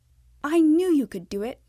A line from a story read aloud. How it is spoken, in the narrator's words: Miss Evelyn exclaimed